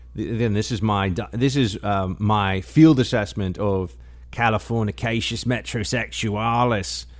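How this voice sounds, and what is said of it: Put-on Australian accent. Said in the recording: “My Aussie accent is really hard. Australian accent”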